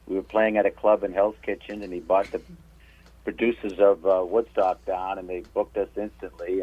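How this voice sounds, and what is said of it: New England accent. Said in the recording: “Are you from Massachusetts or Rhode Island? ... picking up on the good accent.”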